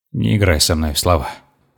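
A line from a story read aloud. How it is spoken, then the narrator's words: Snorting request. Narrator (Russian): хмыкнул я и попросил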